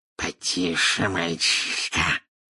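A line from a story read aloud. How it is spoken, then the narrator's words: Hissed in snake tongue. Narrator (Russian): прошипел Мракс на змеином языке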